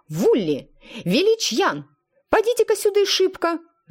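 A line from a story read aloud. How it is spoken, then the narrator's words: Yelling. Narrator (Russian): завопила она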